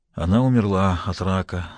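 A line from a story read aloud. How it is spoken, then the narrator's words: Tragic voice. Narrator (Russian): закончил трагическим голосом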